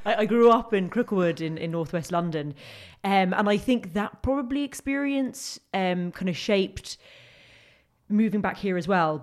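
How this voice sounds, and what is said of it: London accent, not thick Limerick. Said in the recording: “as people can probably tell by my accent, that's where I grew. It's not a thick Limerick accent.”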